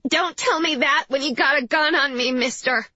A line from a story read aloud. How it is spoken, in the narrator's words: she called, her voice high like a much younger girl's